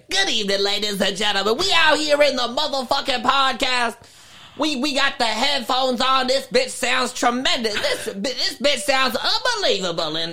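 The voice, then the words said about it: Imitates another person's voice. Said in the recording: “I love Cat Williams. Cat Williams is probably my favorite”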